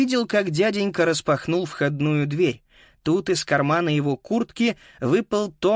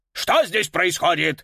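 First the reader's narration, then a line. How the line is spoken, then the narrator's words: Barked through doorway. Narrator (Russian): рявкнул в открытую дверь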